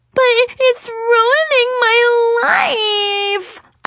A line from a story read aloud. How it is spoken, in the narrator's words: I sobbed hysterically